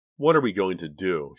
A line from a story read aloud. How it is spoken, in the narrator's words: She asked with a sigh